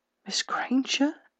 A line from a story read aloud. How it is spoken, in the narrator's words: Severus Snape whispered